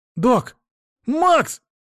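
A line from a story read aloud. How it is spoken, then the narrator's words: Shouted. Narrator (Russian): закричал Лёшка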